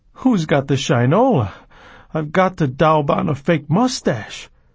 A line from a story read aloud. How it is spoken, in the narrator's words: thinking hysterically